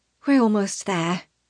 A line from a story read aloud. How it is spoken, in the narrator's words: Tana says softly